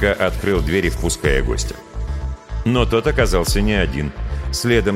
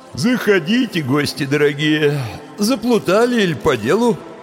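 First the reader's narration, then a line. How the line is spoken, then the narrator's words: Sleepy grumble. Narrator (Russian): сонно проворчал он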